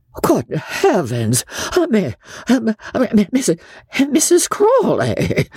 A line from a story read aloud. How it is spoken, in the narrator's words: gasped Joss